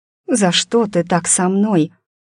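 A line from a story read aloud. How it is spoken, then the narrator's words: Quiet, resigned question. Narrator (Russian): спросила тихо, понимая, что теперь бусы не собрать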